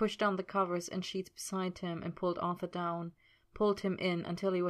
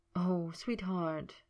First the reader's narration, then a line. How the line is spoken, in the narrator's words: Merlin breathed, feeling terrible